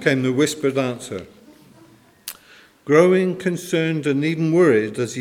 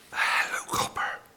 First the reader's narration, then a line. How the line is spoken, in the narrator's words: answered the whispering voice